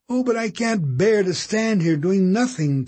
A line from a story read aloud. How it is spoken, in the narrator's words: Kate cried aloud